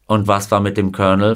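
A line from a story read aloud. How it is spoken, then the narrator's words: Plain question. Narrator (German): fragte Himes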